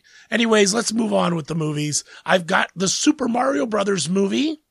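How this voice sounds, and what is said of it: Raspy, hoarse voice from a cold. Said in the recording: “raspy Demi Moore sexy voice. I've got a bit of a cold ... I'm going to have a bit of a rasp going on ... my voice cracks”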